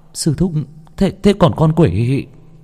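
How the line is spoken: Stammering. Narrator (Vietnamese): Người thanh niên lắp bắp

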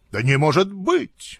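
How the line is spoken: Despairing exclamation. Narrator (Russian): воскликнул с отчаянием

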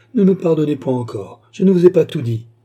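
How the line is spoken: Sinful woman exclaiming. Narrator (French): s'écria la pécheresse

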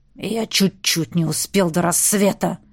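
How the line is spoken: Growl. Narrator (Russian): рыкнул герцог

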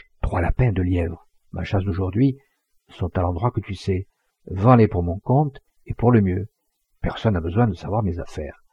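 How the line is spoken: Low voice. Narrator (French): Paul Morin, qui, de façon à être entendue d'elle, dit à voix basse

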